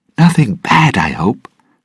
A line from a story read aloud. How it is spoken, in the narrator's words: Raghetti said nervously